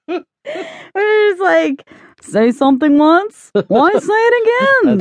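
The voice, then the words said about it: Imitates another person's voice, badly. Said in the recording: “a really bad Jerry Seinfeld impression”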